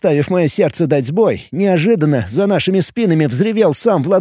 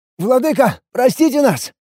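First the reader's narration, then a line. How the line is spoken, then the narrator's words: Strained, forced out. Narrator (Russian): Только и смогли мы выдавить из себя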